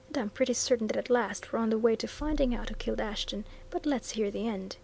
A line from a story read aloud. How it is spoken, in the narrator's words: muttered Viner